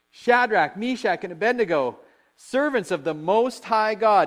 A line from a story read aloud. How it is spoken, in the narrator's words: Nebuchadnezzar shouted